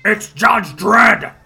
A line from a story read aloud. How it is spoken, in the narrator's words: yelling out